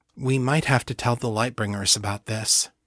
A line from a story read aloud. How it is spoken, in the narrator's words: Kate said quietly